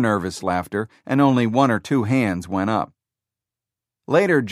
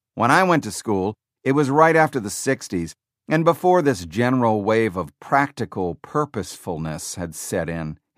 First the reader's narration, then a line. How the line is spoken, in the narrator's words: said